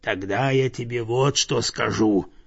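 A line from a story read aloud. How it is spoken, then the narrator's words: Growling bear. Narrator (Russian): прорычал медведь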